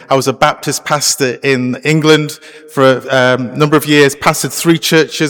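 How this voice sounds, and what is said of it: British accent. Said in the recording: “As you can tell from my accent, I can't speak Canadian... I'm actually from the UK... still have my accent”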